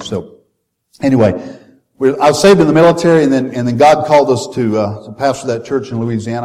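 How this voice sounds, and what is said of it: Slight Southern American accent. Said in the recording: “if you detect a little Southern accent, you'll know where that came from.”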